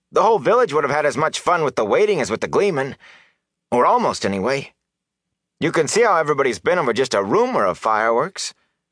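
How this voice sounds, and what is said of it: Aggrieved complaining voice. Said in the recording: “Matt demanded in an aggrieved voice.”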